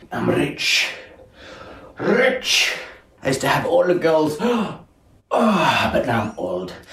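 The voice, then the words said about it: Old, weird sunken-chested character voice. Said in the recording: “Pantalone or sunken chest. Sunken chest, maybe a bit jealous and weird ... good job of the impression”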